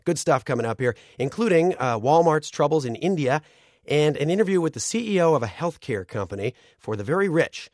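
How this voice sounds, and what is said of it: Rough, strained voice. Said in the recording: “as you can tell from my voice here. It's a little rough”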